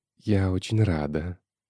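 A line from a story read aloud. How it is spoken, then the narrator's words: Seductive whisper. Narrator (Russian): сексуально прошептала Юля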